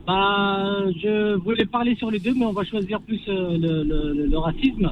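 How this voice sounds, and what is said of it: Kabyle-accented French. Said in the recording (French): “ça s'entend à mon accent, donc je suis kabyle”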